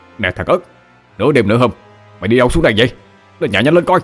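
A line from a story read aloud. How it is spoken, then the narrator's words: Hurried shout. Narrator (Vietnamese): Anh Út vội la lên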